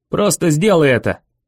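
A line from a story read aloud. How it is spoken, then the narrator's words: Barked. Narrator (Russian): рявкнул я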